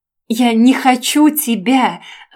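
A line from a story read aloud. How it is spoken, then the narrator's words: Loud shriek. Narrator (Russian): завопила на всю комнату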